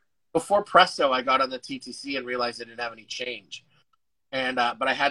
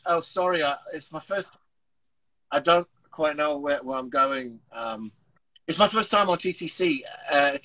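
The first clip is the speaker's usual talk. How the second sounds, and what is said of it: Put-on British accent. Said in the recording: “I started speaking in a British accent.”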